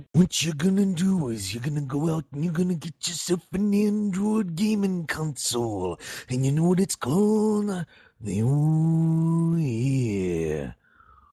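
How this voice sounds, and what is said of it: Imitates another person's voice. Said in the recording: “pronounce Ouya like Randy Savage ... he knows how to do that best”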